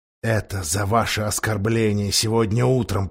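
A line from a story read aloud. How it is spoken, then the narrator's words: Whisper. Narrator (Russian): прошептал он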